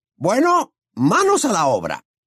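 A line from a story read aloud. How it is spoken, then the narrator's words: Exclamation. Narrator (Spanish): exclamó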